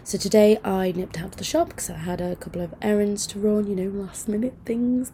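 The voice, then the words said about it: Groggy, hoarse voice with cough. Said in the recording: “I sound a bit groggy today... I've got a horrible cough thing... my voice is going, coughing”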